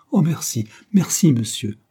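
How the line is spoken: Grateful exclamation. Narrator (French): s'écria-t-elle en se levant

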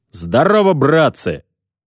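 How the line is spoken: Bold shout. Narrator (Russian): Лашкевич браво выкрикнул

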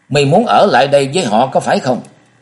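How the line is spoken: Shout after long pause. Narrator (Vietnamese): Thường Quánh ngẫm nghĩ một hồi lâu, rồi lại lên tiếng quát

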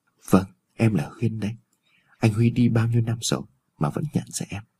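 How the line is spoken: Shy soft speech. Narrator (Vietnamese): khẽ gật đầu, cô có chút bẽn lẽn và nói

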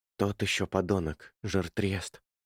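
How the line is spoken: Whispering. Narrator (Russian): прошептал Гарри Уэлш

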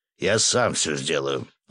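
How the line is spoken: Growl. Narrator (Russian): рыкнул босс

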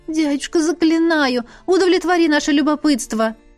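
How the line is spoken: Pleading. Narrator (Russian): взмолилась Лесли

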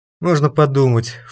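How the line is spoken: Snorting. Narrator (Russian): фыркнул Валерка

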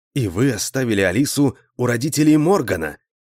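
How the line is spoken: Astonished exclamation. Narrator (Russian): изумленно воскликнул я

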